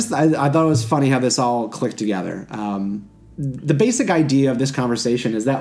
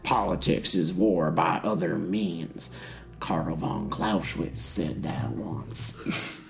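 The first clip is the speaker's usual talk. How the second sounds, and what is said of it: Deliberately bad put-on Southern accent. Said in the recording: “That's my really bad Southern accent.”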